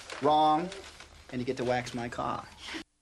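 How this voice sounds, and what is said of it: Boston Kennedy-style accent. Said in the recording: “Kevin Costner doing a Boston/Kennedy accent”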